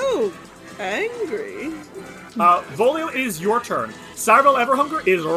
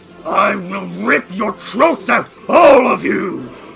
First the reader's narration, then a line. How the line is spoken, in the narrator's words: he snarls and says